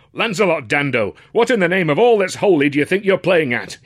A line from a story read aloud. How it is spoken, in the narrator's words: he cried, outraged